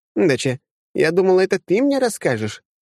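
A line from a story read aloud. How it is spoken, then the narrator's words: Carefree laugh over phone. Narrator (Russian): беззаботно хохотнула в трубку Вера Германовна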